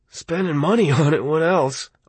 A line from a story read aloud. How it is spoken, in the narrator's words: Arnie said, and laughed his almost genuine laugh